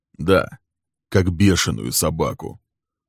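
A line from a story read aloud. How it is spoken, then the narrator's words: Cold confirmation. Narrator (Russian): Холодно подтвердил Лесли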